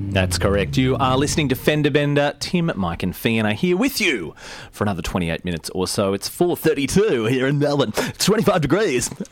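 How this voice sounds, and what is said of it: Exaggerated radio announcer voice. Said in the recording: “Excellent radio voice.”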